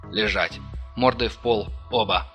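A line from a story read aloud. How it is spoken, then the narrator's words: Barked command. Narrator (Russian): рявкнул незнакомец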